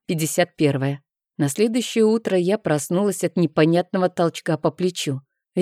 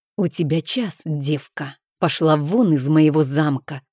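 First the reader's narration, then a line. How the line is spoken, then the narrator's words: Hissed through teeth. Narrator (Russian): процедила без предисловий герцогиня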